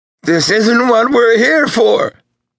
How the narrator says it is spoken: screamed the man

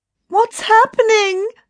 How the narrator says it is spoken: Anne screamed as a dazzling red cloud spread all around him

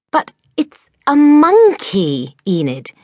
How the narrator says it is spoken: exclaimed Mildred

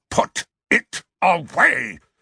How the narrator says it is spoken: Uncle Vernon snarled into Harry's ear

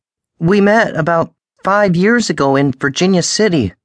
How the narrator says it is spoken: said, raising her voice over the howl of the wind

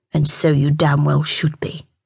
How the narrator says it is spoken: Jake growled

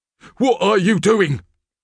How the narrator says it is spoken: he suddenly cried

